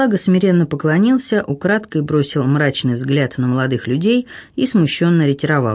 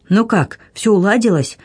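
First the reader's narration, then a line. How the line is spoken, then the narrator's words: Cheerful question. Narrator (Russian): радостно осведомился он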